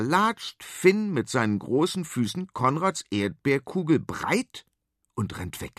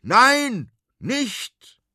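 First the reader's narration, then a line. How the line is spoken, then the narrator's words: Shouting from window. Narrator (German): schreit der große Konrad aus dem Fenster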